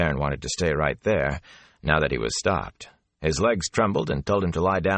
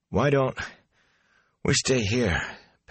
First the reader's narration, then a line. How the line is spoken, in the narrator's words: Perrin panted